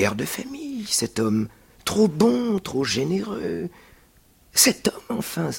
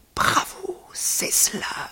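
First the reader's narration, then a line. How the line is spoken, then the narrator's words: Murmured. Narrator (French): murmura-t-il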